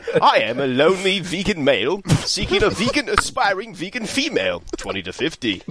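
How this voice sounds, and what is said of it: Put-on British accent. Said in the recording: “Oh, you're British... You know you can drop the accent.”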